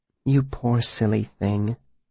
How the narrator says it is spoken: Denna said softly

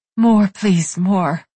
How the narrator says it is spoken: she panted out

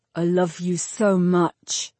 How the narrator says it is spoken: he said

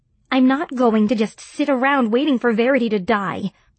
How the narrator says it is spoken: I said hotly

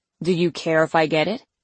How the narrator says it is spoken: my brother snorted

